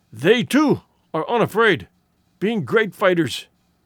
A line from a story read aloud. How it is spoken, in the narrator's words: wheezed